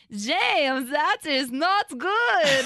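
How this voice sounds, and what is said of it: Put-on German accent. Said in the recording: “I have this German accent. That was my character. I had to do this German accent.”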